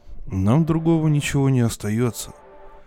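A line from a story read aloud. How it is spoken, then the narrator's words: Sighing. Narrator (Russian): Вздохнул капитан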